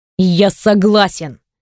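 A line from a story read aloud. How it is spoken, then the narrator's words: Sharp blurt. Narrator (Russian): Резко вырывается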